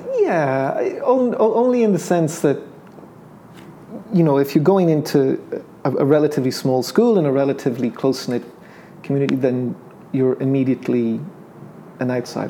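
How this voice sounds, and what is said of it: Irish accent with English lilt. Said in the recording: “coming there with an Irish accent, which you know I, I don't think I have an accent, but of course I do ... an English lilt to my Irish accent”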